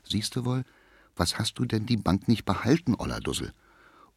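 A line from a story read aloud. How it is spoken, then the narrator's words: Low murmur. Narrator (German): Die Künstlerin Fröhlich ... raunte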